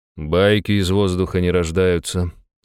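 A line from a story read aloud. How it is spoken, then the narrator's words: Sigh. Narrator (Russian): вздохнул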